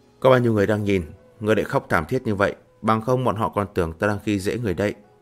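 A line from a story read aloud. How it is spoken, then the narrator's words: Gentle tender voice. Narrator (Vietnamese): Lăng Tiếu nhu hòa nói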